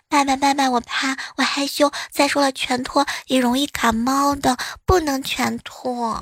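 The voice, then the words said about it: Quiet, soft child's voice. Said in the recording (Chinese): “小声的跟他说”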